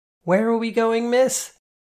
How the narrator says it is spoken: I shouted against the wind

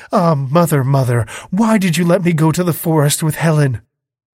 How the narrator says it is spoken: she exclaimed

